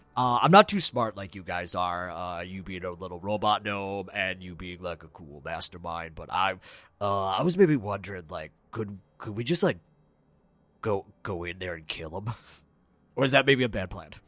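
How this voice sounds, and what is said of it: Character voice. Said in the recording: “This is going to maybe be my character voice.”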